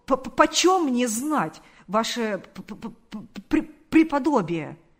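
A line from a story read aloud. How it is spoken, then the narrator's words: Stammering. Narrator (Russian): сказал он, запинаясь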